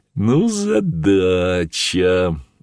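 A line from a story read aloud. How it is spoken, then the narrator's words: Laughing. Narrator (Russian): засмеялся он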